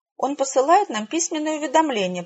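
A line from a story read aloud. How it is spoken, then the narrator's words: Squeaky mouse voice. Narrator (Russian): пропищала старшая из трех слепых бесхвостых мышек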